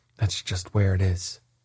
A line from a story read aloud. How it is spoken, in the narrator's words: sighed the caliph, whose wings drooped in a dejected manner